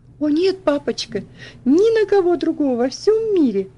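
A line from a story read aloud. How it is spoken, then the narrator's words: Excited. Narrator (Russian): взволнованно ответила она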